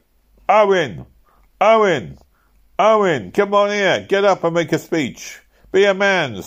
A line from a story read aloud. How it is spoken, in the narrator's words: they all began to shout